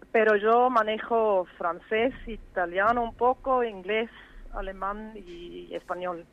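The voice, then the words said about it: Strong Swiss German accent in Spanish. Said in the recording (Spanish): “mi acento es fuerte. Cuando yo me escucho hablar, siento fuerte el acento del suizo alemán”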